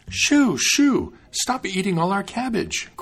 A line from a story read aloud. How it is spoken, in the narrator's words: cried the maiden